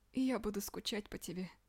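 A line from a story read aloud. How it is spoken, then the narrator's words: Tearful. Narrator (Russian): сказала она сквозь слезы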